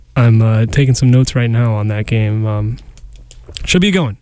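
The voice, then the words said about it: Radio voice, sounds slightly ill. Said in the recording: “this lovely radio voice that's recovering from illness”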